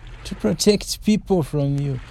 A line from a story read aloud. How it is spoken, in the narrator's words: laughed